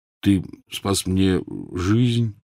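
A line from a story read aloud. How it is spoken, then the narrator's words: Mumble. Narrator (Russian): Однако тот пробормотал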